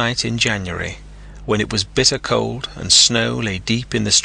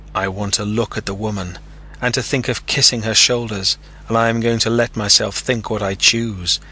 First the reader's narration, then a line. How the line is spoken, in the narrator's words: he declared bitterly, and tears came into his eyes